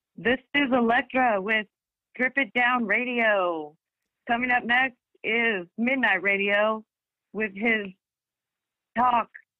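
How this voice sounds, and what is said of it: DJ-style radio announcer voice. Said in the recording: “I'm practicing my radio voice ... let's hear your radio voice”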